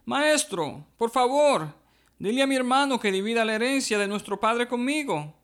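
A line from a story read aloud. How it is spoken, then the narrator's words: Exclamation from crowd. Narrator (Spanish): alguien de la multitud exclamó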